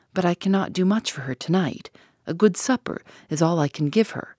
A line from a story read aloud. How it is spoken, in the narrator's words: she muttered